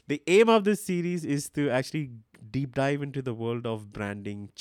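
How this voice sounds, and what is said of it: Indian accent sometimes mistaken for German. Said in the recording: “A lot of people misunderstand my accent thinking I'm German. I'm not.”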